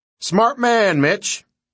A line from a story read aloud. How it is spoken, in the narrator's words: Sarge shouted